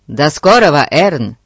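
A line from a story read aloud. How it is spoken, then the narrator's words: Shouted reply. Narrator (Russian): крикнул Фати в ответ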